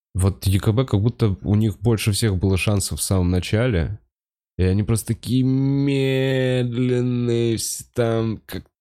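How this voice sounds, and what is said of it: Very slow Lev Eremenko impression. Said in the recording (Russian): “пародия на Льва Ерёменко сейчас ... Похож ... говоришь, я прям, ну, типа, очень медленно”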